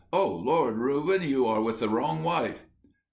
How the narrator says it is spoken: she exclaimed

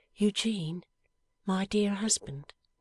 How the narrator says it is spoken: she said in a calm, loving voice

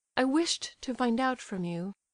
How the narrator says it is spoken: she said firmly

